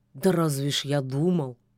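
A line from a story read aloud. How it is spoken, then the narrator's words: Grumbling wolf. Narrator (Russian): пробурчал волк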